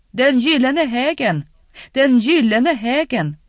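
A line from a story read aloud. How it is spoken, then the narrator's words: Calling out. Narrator (Swedish): En annan ropade inåt fästningen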